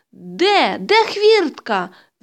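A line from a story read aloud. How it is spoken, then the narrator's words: Shouted again. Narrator (Ukrainian): знову закричала Ганна Петрівна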